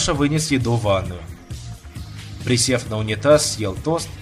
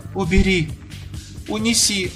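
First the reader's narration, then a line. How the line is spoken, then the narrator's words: Sobbing. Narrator (Russian): всхлипывала она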